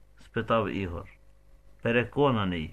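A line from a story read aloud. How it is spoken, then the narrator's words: Plain. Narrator (Ukrainian): відповів Денис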